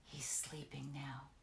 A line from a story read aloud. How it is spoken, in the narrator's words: whispered